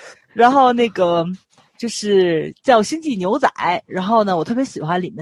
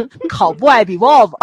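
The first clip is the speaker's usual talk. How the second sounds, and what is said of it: Tianjin accent. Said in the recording (Chinese): “天津口音再来一遍”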